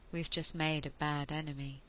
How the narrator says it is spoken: Ianto said quietly

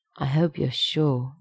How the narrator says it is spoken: the Canadian whispers

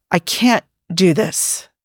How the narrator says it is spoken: he said in a strangled sounding voice

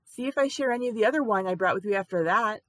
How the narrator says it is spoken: she called out after him

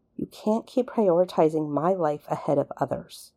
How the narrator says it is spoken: Rodney took a moment to recover before mumbling

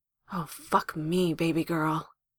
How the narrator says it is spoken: groans into her hair

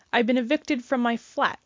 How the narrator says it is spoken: Sherlock announced irritably

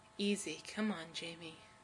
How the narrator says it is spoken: Adam mutters

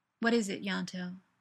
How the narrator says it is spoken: Tosh asks

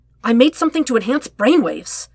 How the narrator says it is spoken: he exclaimed

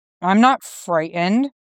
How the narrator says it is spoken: Bucky grumbles

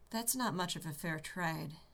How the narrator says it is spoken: Shepard said quietly

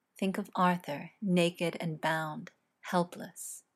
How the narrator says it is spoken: says softly, almost in a whisper

